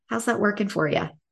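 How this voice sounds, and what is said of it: Dr. Phil impression, Texas accent. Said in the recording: “In the words of Dr. Phil ... in his Texas accent”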